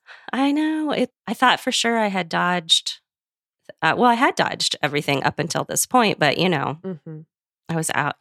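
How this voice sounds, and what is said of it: Scratchy, congested voice. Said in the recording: “my voice is very scratchy ... I do have a head cold. So that's why I sound different.”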